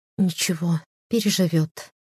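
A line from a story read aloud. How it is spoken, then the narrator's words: Tearful whisper on phone. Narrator (Russian): шепнула в трубку, смаргивая проступившие на глазах слезы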